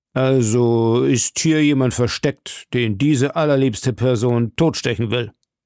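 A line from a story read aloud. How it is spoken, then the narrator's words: Mocking, contemptuous reply. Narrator (German): erwiderte in einem höhnischen und verächtlichen Ton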